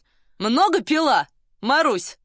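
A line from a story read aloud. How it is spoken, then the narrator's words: Question in Russian. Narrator (Russian): спросил один по-русски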